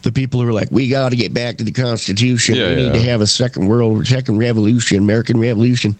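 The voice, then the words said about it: Put-on Southern accent. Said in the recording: “I don't know why I do it in a Southern accent.”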